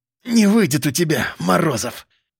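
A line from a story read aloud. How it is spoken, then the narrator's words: Hissing. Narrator (Russian): шипел Чудинов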